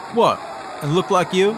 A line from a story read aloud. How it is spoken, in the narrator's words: Mick stared the heckler down and oh so coolly replied